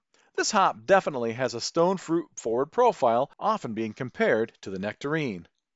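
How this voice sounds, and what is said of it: American Midwest accent. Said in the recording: “you might hear me mispronounce Nectaron as Nectarone due to my Midwest accent”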